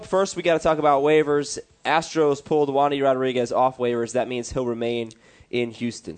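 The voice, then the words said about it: Sick, rough-sounding voice. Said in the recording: “I'm a little under the weather. I know you can hear it in my voice. I know I sound like garbage”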